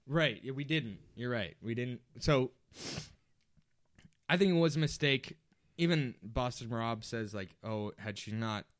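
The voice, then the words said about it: Nasal, congested voice. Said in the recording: “I don't know what's going on with my nose right now. Can you hear how nasally I am?... Oh, yeah.”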